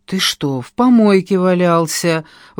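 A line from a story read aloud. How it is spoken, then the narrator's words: Grumbling. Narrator (Russian): ворчала я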